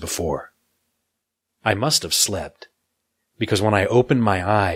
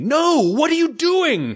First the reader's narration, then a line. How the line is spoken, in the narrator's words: cried